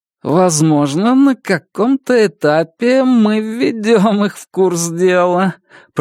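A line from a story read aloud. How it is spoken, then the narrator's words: Purring. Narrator (Russian): промурлыкал Сторроу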